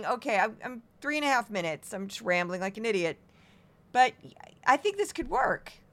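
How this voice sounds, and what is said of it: Strained, fading voice. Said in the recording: “I'm losing my voice already. I've been a little sick.”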